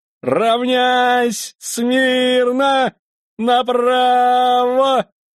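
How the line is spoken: Desperate shout. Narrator (Russian): Отчаянно закричал

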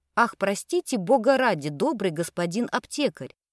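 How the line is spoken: Timid girl, agitated. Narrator (Russian): взволнованно произнесла оробевшая девочка

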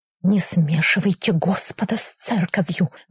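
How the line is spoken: Angry whisper. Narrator (Russian): гневно прошептал исповедник

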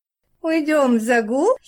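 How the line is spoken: Giggled. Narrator (Russian): хихикнула Вера

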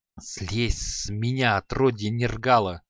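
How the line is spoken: Angry strained hiss. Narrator (Russian): Злобно прошипел он, с трудом отпихивая Шамшуддина

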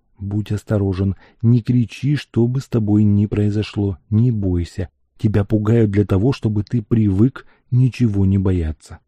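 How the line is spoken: Whispered. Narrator (Russian): шепотом добавил

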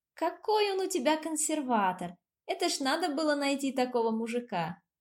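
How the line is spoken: Laughing. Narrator (Russian): смеялась Лара

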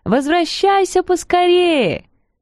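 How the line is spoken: Kittens calling after. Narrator (Russian): Котята крикнув ему вслед

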